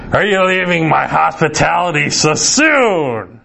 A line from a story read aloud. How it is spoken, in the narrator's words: his voice boomed in menace-laden Mandarin